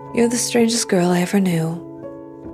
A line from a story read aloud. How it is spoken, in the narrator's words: Allie sighed